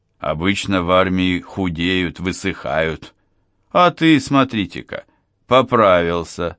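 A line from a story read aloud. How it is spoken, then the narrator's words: Laughing. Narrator (Russian): смеялся Махини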